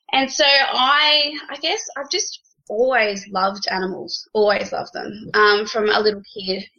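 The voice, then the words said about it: Australian accent. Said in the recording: “you can all hear with my fancy little accent, obviously, that I'm Australian”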